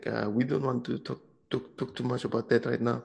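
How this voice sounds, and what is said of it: Weird put-on Polish accent. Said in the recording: “He did it in a Polish accent ... my accent sounded so weird”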